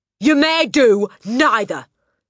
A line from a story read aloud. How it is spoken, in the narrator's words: snapped the Trunchbull